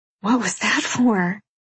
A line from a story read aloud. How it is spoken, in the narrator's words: I whisper